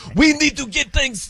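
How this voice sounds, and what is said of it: Poor Wembanyama impression, Middle Eastern-sounding. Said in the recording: “I can't do a Wimby impression. That sounded more like Middle Eastern right there.”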